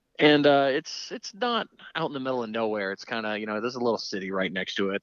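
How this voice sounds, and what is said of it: Regional accent dropping R's. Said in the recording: “the accent. The accent makes sense to me now ... We don't say R's in certain parts of, you know, there. You know, it's not Bar Harbor. It's Bahaba.”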